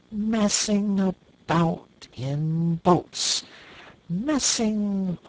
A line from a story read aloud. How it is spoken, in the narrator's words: he went on dreamily